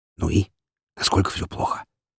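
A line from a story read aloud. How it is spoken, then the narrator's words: Quiet laugh. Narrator (Russian): Лазарев тихо рассмеялся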